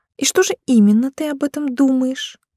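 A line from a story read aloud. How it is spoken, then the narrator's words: Sickly-sweet cooing. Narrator (Russian): Приторно-сладко проворковала красотка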